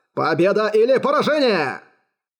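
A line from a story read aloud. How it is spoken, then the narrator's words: Exclaiming. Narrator (Russian): Воскликнул Юань Е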